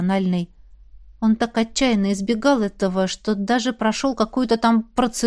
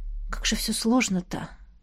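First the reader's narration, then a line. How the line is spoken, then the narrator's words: Sighing whisper. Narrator (Russian): прошептала со вздохом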